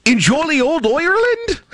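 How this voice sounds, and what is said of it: Attempted Irish accent. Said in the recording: “I'm working on my accent. It's getting good, I think.”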